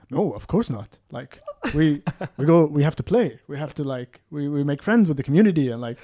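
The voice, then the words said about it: Imitates another person's voice. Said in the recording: “The way he talks ... Your best CJ impression. ... Yeah, that's what he talks like.”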